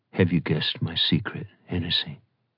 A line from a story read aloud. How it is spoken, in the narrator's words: Bride said in a low voice